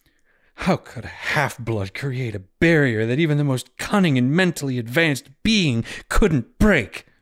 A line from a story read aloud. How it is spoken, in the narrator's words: Roan sputtered